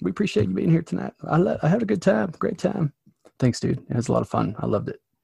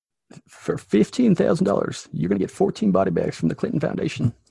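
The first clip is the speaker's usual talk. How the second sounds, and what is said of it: Impression of a US president's voice. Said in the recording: “a Bill Clinton impersonation ... my weird ability to pretend to be other presidents ... talk like Bill Clinton”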